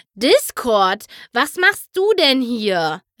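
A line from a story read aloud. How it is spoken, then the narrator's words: Called out. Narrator (German): rief Twilight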